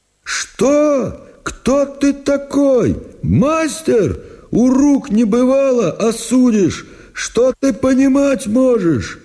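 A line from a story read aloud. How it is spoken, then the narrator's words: Shout. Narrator (Russian): Прокопьич закричал, конечно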